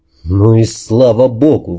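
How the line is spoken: Forced-out words. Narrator (Russian): выдавил я

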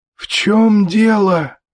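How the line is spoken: Hoarse wheeze. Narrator (Russian): просипела Дженни со своего угла

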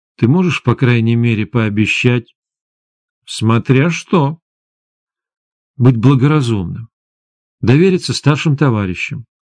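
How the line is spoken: Reluctant, indignant. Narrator (Russian): От возмущения девушка неохотно сказала

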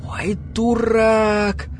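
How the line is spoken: Soft gasp from crowd. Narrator (Russian): Тихо ахнул кто-то в толпе

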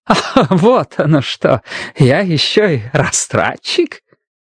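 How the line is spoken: Fake chuckle. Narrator (Russian): притворно хохотнул Бристоу

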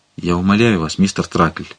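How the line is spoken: Barely audible. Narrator (Russian): проговорил он едва слышно

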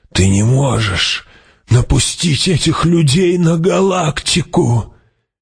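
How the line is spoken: Exclaiming. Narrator (Russian): воскликнула

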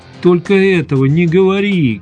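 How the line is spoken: Shout. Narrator (Russian): крикнула Ольга

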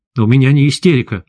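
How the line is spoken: Angry. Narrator (Russian): зло сказал я

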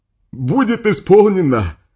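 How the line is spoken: Adult shouting. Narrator (Russian): прокричал взрослый вражок

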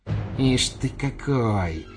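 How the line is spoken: Muttering. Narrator (Russian): бормотала

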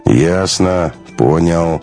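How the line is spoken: Sad. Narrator (Russian): печально сказал Магарыч

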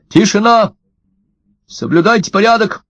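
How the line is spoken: Commanding shout. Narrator (Russian): Эрик крикнул

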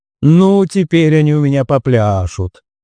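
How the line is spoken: Menacing woman's voice. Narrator (Russian): грозно сказала женщина

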